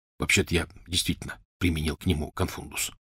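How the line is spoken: Whispered. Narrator (Russian): шепотом сказал Рон Гарри

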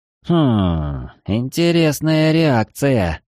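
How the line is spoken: Puzzled drawl. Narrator (Russian): озадаченно протянул Эридани

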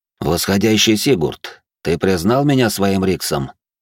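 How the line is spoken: Calm question. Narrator (Russian): спокойно спросил старший Кассиди

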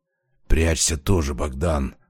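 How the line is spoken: Hoarse rasp. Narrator (Russian): прохрипел он

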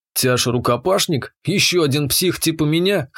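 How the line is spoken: Snorted. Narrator (Russian): хмыкнул я

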